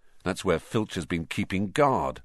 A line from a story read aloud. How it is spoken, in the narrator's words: Ron muttered